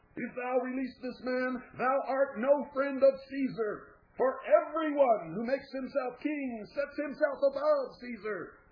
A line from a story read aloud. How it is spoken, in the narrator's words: They began to shout